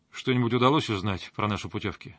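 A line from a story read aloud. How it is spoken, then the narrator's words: Plain. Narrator (Russian): спросил я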